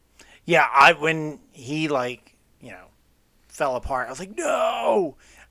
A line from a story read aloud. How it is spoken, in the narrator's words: I screamed it out loud